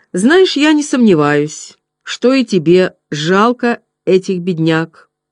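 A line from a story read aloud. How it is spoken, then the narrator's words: Plain. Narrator (Russian): ответил Олвин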